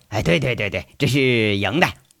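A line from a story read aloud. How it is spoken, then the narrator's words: Laughing. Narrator (Chinese): 陈大拿笑着说了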